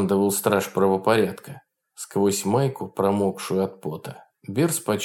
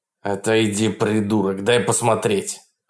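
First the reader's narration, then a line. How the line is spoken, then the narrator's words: Rude bark. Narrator (Russian): рявкнул полицейский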